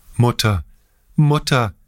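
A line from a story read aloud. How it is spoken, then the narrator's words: Crying out through sobs. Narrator (German): rief er mit einer von schluchzenden Tränen unterbrochenen Stimme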